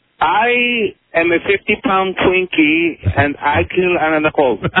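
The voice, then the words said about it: Put-on Spanish accent. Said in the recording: “the 50-pound Twinkie with the accent... That's a Spanish Twinkie.”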